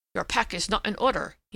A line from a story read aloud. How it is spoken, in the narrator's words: he said sharply